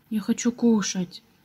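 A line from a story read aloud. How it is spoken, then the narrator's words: Quiet, hesitant. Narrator (Russian): наконец набрался мужества и тихо сказал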